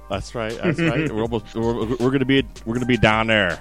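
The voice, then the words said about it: Pittsburgh accent. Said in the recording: “That's my Pittsburgh accent... That's your Pittsburgh accent coming out”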